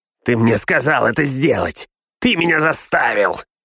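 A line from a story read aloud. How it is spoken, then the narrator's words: Angry hiss. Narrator (Russian): прошипел он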